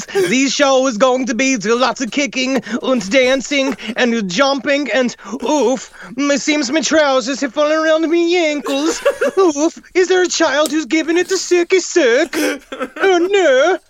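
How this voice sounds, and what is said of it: Put-on Swedish accent. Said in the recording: “if Charles Ng was born a Swedish man ... I don't know how to do a Swedish accent.”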